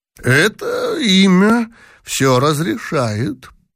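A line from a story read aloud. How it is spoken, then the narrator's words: Toothless mumble. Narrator (Russian): прошамкал Бенниксон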